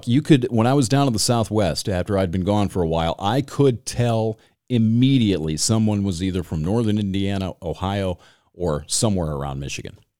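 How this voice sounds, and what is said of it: Michigan accent. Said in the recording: “now it's coming back. I can hear it in the podcast ... They don't think that there's any accent here, but it is thick as fuck”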